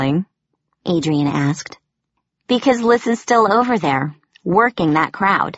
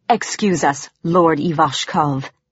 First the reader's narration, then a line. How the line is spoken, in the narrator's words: she growled